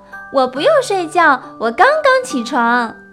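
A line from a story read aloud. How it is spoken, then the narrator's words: Owl-like call while running. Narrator (Chinese): 它学着猫头鹰的声音，边跑边叫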